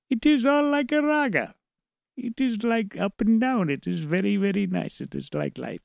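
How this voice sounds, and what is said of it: Put-on Indian accent, sing-song. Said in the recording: “he would talk like this ... I suddenly slip into my Indian accent”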